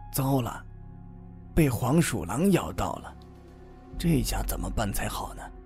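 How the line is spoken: Low murmur. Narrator (Chinese): 奶奶嘴里低声说道

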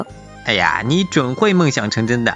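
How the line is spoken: Smiling. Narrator (Chinese): 花栗鼠微笑着说

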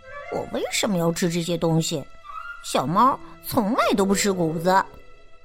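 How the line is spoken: Quiet muttering. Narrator (Chinese): 赫娜小声的嘟囔

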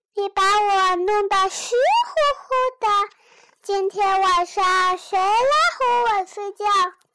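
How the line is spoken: Lamb wailing. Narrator (Chinese): 呜呜，小羊的叫声

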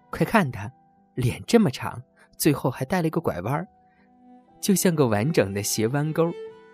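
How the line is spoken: Roaring laughter. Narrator (Chinese): 他捧腹大笑说

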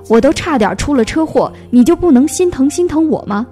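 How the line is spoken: Bursting out in a roar. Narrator (Chinese): 林阳……憋不住了，大吼

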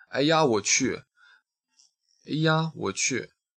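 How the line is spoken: Overjoyed long sigh. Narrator (Chinese): 我如获至宝的长叹一声

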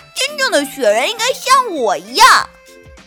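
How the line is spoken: Shouting. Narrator (Chinese): 跳跳喊道

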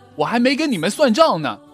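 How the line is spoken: Shouting. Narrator (Chinese): 跳跳喊道

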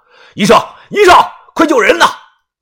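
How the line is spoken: Loud shout. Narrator (Chinese): 于哥大声的喊着

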